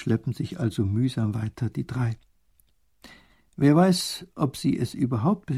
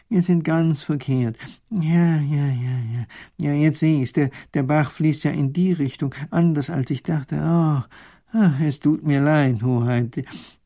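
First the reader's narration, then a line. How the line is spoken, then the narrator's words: Groaning professor. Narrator (German): stöhnt der Professor auf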